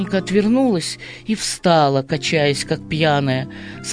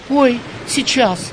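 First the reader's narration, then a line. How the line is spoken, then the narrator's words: Frightened reply. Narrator (Russian): испуганно отозвалась Манька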